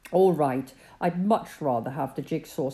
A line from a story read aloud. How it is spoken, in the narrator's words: said Peter